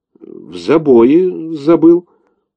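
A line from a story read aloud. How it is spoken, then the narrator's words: Stammering reply. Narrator (Russian): запинаясь, ответил тот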